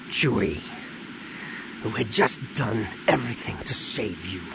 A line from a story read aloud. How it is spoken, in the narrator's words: Han said with a growl